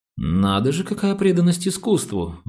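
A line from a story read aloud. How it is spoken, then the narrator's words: Sighing mother-in-law. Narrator (Russian): вздохнула свекровь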